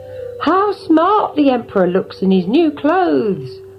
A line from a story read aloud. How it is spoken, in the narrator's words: they cried